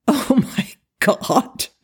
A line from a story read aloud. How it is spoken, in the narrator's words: Daniel said, laughing in spite of himself